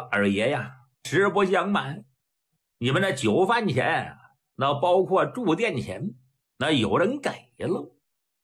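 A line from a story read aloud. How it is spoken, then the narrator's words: Smiling. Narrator (Chinese): 伙计一笑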